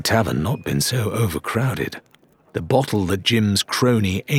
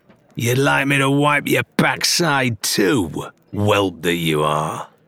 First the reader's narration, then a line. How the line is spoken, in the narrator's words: added with his face twisted in a sneer